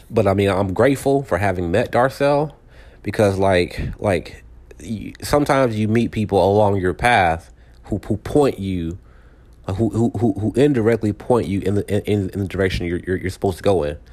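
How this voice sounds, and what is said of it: Hoarse, strained voice. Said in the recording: “Man, I'm losing my voice.”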